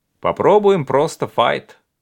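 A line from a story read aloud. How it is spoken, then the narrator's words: Plain. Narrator (Russian): сказал левый экзаменатор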